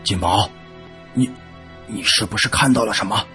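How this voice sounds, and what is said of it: Quiet, hushed question. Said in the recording (Chinese): “小声的问”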